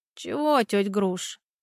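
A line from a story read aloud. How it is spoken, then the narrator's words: Lazy drawl. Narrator (Russian): лениво проговорил он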